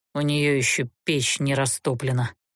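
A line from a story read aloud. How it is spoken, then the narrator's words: Grumpy mutter. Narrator (Russian): буркнул граф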